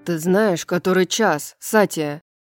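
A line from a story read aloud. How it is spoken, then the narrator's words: Hiss. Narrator (Russian): Прошипел Флинн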